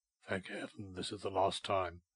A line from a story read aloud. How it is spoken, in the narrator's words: he muttered to himself